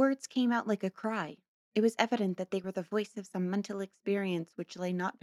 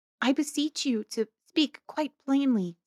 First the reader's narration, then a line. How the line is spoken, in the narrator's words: said Dorothea in an imploring tone